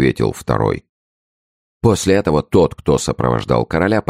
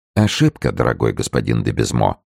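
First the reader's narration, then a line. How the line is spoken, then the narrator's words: Calm answer. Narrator (Russian): спокойно отвечал Арамис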